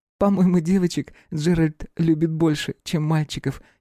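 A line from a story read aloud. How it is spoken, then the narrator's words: Giggling. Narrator (Russian): хихикнула Аэлия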